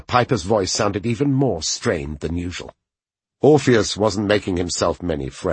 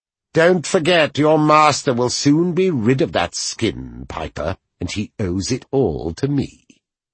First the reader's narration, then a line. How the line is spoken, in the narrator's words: he replied in a supercilious tone